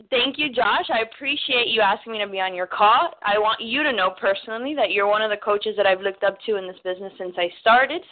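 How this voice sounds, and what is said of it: Cuban-American South Florida accent. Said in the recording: “now that you've heard my accent realize I am nowhere near Texas. I am from sunny South Florida. My parents are, you know, Cuban, so that's where the accent comes from”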